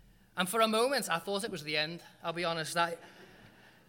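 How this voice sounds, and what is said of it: Usual voice. Nothing is said of it.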